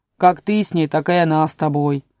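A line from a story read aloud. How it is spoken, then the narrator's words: Grumbling. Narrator (Russian): пробурчал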